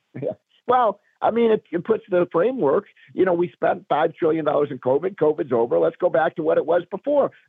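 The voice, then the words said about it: Slightly raspy voice. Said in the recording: “my voice is a little raspy. I've got a little bit of a cold”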